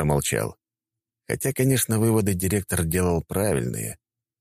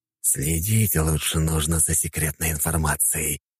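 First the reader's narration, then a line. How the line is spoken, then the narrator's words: Hiss. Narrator (Russian): прошипел Жемчужников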